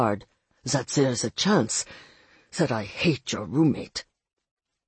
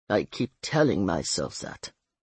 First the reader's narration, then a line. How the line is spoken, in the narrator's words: he said grimly